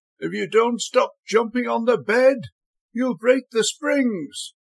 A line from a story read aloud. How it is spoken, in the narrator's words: called out laughingly